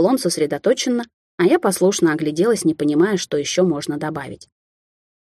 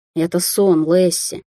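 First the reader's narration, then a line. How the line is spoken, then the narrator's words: Tired explanation. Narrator (Russian): устало пояснил Амбер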